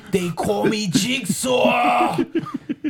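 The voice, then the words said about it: Heavy put-on Brooklyn accent. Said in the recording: “Covering up for my English accent with a fucking heavy-ass Brooklyn accent.”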